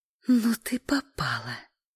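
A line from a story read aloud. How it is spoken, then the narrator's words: Hiss. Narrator (Russian): зашипела Эля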